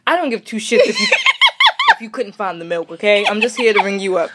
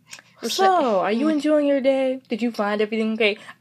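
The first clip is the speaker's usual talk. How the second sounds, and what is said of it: Fake polite customer-service voice. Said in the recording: “You put that fake voice on”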